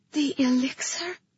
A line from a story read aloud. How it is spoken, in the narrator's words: I breathed